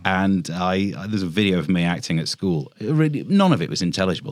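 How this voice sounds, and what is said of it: East Midlands Mansfield accent. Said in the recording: “I'm from the Midlands, from Mansfield. ... I've got more of that Mansfield accent back now”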